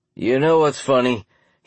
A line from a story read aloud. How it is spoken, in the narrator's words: said, chuckling